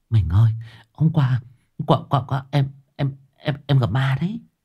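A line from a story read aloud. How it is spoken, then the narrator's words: Whisper. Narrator (Vietnamese): thì thầm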